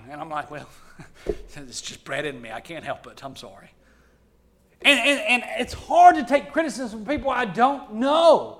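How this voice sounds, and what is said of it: Alabama accent. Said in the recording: “you need to work on that accent. Ain't nobody going to listen to that Alabama slang.”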